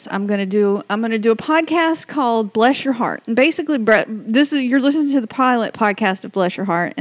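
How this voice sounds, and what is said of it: Southern US accent. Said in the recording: “everybody always talks about my accent. Well, here it is... the Southernism”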